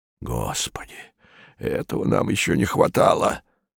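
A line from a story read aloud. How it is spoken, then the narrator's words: Muttering. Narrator (Russian): бормотал Барбридж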